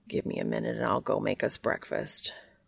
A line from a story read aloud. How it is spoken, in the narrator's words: Cass mumbles